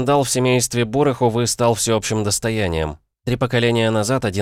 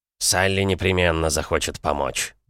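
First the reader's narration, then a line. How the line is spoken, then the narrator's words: Mumbled. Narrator (Russian): пробормотал Смородине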